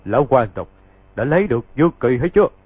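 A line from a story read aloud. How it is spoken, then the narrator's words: Laughing loudly. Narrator (Vietnamese): có kẻ cười to, dán cả tay rồi nói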